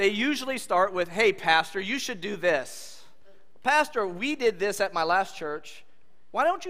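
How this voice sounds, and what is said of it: Usual voice. Nothing is said of it.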